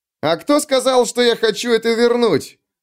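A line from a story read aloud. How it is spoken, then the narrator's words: Furious bark. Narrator (Russian): рявкнул Юранд, еще более разъяренный, чем прежде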